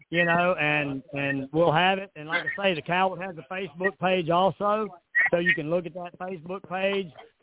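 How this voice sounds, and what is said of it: Southern US accent, North Carolina. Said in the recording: “if the accent was real ... No, it's real. You know, I'm a Southerner. ... I'm from the Blue Ridge Mountains in North Carolina”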